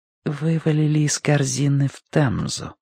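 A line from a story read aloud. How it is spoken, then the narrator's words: Woman's near-whisper. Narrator (Russian): почти шепотом закончила женщина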